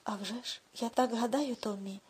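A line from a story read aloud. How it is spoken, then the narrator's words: Man's lisping whisper. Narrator (Ukrainian): пошепки прошепелявив дядько Гарольд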